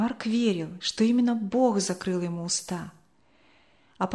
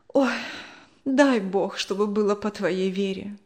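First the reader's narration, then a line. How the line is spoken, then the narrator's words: Sighing. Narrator (Russian): вздохнула она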